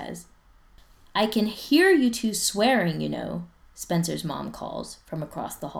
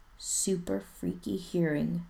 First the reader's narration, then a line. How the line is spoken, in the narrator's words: Spencer says quietly